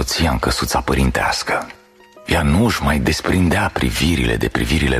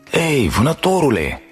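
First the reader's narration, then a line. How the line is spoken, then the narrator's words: Shouting. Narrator (Romanian): strigă Ara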